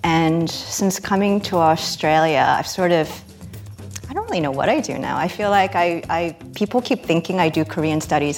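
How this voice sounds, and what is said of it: American accent. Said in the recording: “you can probably tell from my accent, I'm from the US”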